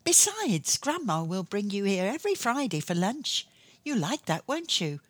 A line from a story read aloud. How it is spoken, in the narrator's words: she said reassuringly, and then added brightly